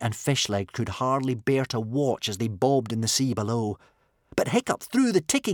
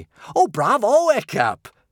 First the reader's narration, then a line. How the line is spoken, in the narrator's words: cheered Kamikaze excitedly